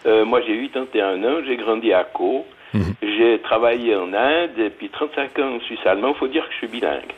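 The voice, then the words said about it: Pronounced Hauts-de-Montreux French accent. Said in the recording (French): “j'ai gardé en français mon accent des Hauts-de-Montreux ... avoir un accent assez prononcé”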